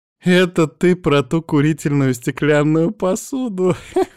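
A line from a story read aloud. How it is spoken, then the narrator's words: Loud laughter. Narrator (Russian): Захохотала Марго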